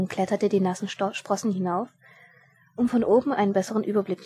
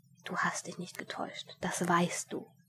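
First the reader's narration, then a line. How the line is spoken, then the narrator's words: Inner whispering voice. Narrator (German): eine Stimme in ihm flüsterte zu ihm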